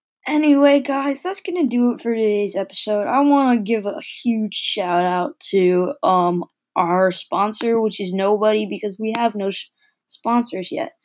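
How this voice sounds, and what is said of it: Tired, just-woke-up voice. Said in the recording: “sorry for my voice. I just woke up. I'm tired.”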